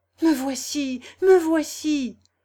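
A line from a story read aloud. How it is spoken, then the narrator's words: Exclaimed. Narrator (French): s'écria Albert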